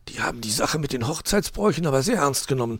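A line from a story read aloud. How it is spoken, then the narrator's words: Whispering. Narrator (German): flüsterte Dominik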